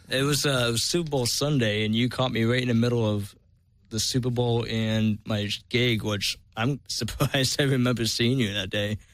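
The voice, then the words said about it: Massachusetts accent. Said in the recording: “I hear an accent. ... I'm from Massachusetts.”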